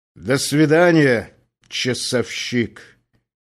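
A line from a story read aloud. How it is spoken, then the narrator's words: Loud. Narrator (Russian): сказал он громко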